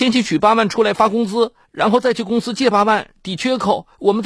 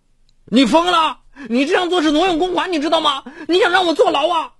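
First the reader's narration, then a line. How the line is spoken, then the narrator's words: Furious shout. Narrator (Chinese): 杨静脸都气青了，好一会儿才吼道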